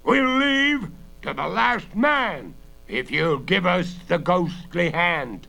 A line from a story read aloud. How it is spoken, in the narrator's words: the familiar voice shout